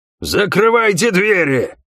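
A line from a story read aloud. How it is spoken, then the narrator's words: Roaring shout. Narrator (Russian): проревел рыжий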